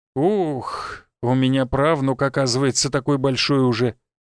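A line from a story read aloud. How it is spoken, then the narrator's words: Sighing. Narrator (Russian): вздохнул тот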